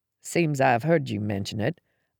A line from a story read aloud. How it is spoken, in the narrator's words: I mumbled around a mouthful of toast